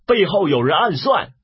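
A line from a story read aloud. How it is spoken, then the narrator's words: Soldiers shouting warning. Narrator (Chinese): 策阵上军士大叫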